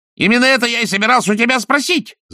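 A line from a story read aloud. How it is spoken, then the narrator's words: Yelling. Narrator (Russian): завопил он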